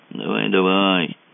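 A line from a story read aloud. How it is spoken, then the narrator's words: Glum. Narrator (Russian): сказал Мазур уныло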